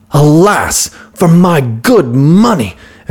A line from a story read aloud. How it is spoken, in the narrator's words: exclaimed the merchant